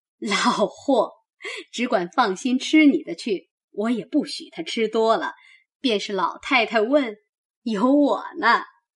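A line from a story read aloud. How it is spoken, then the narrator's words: Laughing. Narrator (Chinese): 薛姨妈笑道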